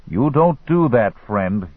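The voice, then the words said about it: German-accented male character voice. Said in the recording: “he said with a German accent.”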